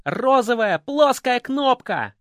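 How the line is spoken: Shouting. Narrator (Russian): кричал Верзила

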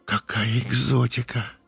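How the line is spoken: Breathed out. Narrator (Russian): выдохнула Юля

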